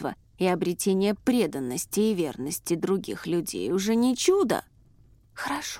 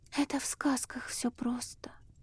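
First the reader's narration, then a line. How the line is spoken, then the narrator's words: Young woman sighing. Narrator (Russian): вздохнула девушка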